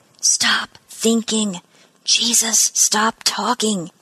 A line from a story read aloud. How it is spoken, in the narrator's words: she murmured, the words as quick as her heartbeat